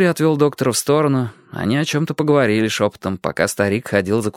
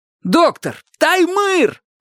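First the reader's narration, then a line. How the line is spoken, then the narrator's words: Alarming yell. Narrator (Russian): заорал таким голосом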